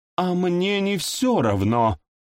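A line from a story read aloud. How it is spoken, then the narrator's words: Cold furious exclamation. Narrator (Russian): С холодной яростью в голосе воскликнула его жена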